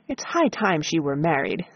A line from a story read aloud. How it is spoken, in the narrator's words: said my father